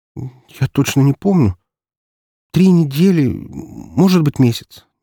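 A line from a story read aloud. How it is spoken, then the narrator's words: Uncertain. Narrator (Russian): неуверенно произнесла Яна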